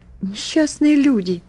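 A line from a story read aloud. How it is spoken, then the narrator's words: Exclaiming. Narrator (Russian): воскликнула я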